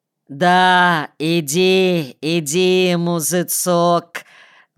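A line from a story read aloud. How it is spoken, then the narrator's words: Deep booming voice, huge man. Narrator (Russian): Басил громадный эстонец, сосед умершего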